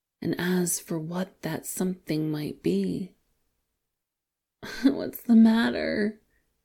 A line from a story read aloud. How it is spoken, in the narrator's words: Wei Wuxian cries